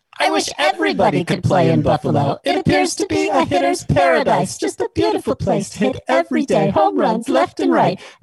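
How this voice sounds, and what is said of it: Angelic, mixer-processed character voice. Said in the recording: “Or I could do a more angelic one like this one.”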